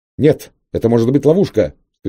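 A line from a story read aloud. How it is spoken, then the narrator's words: Shouting. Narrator (Russian): кричал Гальтон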